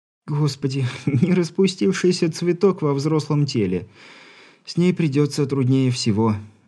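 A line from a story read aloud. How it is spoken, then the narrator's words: Young matchmaker, after laughing. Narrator (Russian): отсмеявшись, заключила молодая сваха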